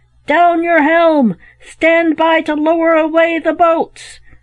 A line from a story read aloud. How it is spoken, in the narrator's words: the captain roared